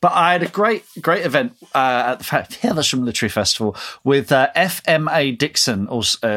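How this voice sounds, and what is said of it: Usual voice. Nothing is said of it.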